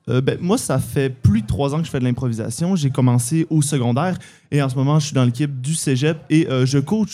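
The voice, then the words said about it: Slight Québécois accent. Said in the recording (French): “un petit accent québécois”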